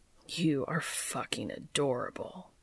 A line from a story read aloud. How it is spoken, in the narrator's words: Cass growled